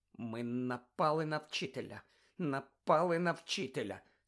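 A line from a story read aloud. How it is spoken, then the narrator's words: Horrified moan. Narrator (Ukrainian): стогнала Герміона, нажахано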